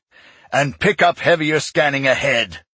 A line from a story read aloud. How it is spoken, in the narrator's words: he growled